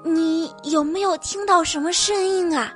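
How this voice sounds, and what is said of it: Quiet, hushed question. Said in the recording (Chinese): “小声地问”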